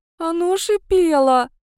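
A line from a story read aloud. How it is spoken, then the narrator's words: Strained tearful words. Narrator (Russian): выдавила я, размазывая слезы по лицу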